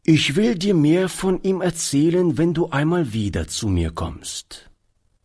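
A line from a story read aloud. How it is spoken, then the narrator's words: Plain. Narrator (German): antwortete Oliver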